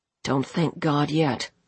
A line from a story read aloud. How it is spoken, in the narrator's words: he said grimly